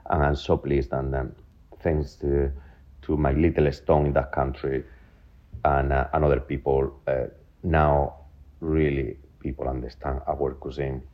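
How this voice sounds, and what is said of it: Spanish accent in English. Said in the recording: “I'm very Spanish, as you can see. My accent is still there after 23 years.”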